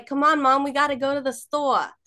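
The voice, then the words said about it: Put-on New York Brooklyn accent. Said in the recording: “my dad's New York accent ... where are you from? Brooklyn?”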